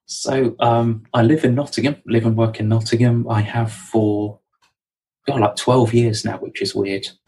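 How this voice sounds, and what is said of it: Southern English accent. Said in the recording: “as you might be able to tell from my accent, I'm a southerner.”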